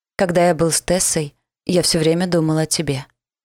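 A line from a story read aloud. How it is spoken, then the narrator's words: Plain. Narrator (Russian): сказал он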